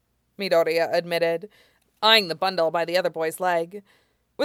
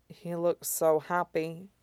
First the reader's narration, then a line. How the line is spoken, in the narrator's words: Todoroki said softly